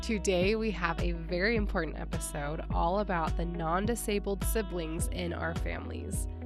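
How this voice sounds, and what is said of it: Sick, congested-sounding voice. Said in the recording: “I sound a little different today because, yes, I am sick.”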